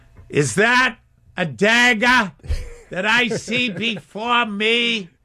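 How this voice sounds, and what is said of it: Boston accent Shakespeare recital. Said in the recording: “I had that Boston accent”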